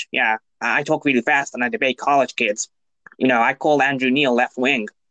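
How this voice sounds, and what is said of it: Fast-talking imitation of another person's voice. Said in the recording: “it's scary how good you got his impersonation down”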